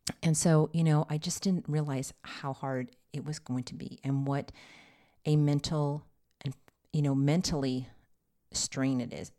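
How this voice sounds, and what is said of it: Tired, emotionally exhausted voice. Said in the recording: “I'm really emotionally exhausted. So you can kind of hear it in my voice”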